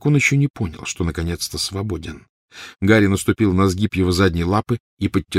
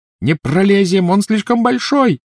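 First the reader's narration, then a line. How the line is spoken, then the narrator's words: Shouting. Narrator (Russian): закричала Гермиона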